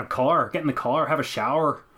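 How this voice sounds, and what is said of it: Bad put-on Irish accent. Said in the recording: “that's a bad Irish accent”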